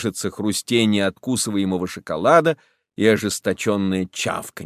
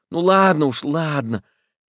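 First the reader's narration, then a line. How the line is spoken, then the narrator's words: Frightened, hurried. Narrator (Russian): испуганно торопится Федченко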